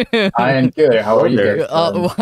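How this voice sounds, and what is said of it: Robotic-sounding voice. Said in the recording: “do you sound like a robot? ... You sound like a fucking robot.”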